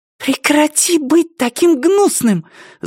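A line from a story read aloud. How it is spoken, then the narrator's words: Hiss. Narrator (Russian): зашипела Амена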